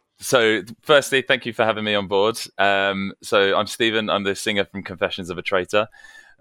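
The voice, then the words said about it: Posh British accent. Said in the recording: “distinctly posh British accent ... cringeworthy Hugh Grant style accent”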